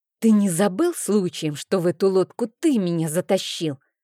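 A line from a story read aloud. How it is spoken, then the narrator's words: Furious hiss. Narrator (Russian): Как разъяренная кошка зашипела я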